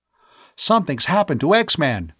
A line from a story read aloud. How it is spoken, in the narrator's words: Tom cried